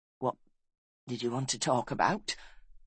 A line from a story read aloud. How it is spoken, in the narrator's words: He asked huskily